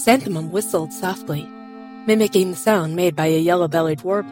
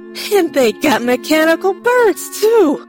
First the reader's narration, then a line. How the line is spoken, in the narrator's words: Constable Jefferson exclaimed, flabbergasted